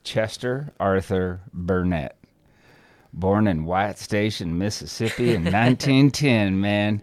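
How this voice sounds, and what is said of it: Texas accent. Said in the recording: “That Texas accent's coming out a little bit.”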